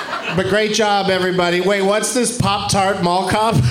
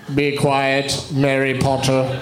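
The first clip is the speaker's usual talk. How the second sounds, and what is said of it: Poor Maggie Smith impression. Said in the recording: “That's a terrible Maggie Smith impression.”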